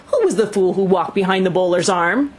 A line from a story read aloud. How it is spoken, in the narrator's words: yelled appealingly